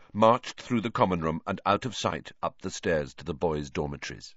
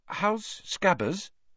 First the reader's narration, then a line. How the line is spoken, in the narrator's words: Hermione asked timidly